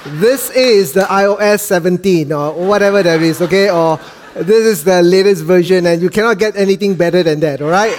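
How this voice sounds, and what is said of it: Malaysian accent. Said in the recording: “So this is the Malaysian accent, okay? I hope you can understand me.”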